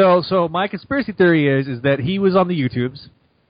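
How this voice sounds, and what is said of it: Usual voice. Nothing is said of it.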